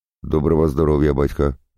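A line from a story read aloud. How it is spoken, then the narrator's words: Plain. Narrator (Russian): сказал Максим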